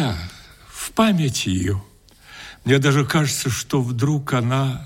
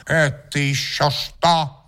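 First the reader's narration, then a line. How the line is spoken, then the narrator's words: Angry question. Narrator (Russian): злобно спросила она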